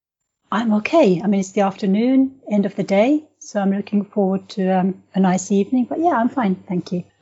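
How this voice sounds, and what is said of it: Finnish accent in English. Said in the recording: “That's a lovely accent, and where's that accent coming from? ... it comes from Finland”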